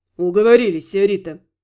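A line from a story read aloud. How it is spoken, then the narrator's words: Contented mock grumble. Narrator (Russian): Проворчал, но слышно было, что проворчал все-таки для проформы призрак, весьма довольный жизнью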